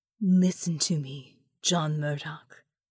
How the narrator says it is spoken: she said, her voice charged with intensity

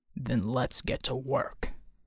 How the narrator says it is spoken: Bull snarled

